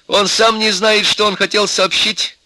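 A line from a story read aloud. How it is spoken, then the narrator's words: Angry. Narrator (Russian): сердито сказала Нюра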